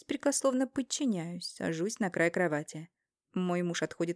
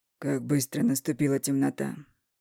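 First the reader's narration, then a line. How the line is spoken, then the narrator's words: Muffled strange prophetic whisper. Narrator (Russian): Глухим, чужим голосом, словно некое пророчество, шепчет он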